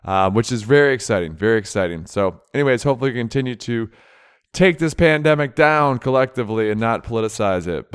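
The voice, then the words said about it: Slightly off, tired-sounding voice. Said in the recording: “my voice is a little bit off. It's a little bit tired”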